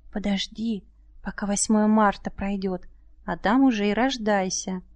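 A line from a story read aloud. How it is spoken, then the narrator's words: Quiet request. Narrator (Russian): попросили тихонько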